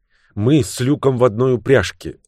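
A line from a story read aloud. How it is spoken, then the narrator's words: Suddenly lowered, agitated voice. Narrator (Russian): резко понизив голос, взволнованно добавила Бриджит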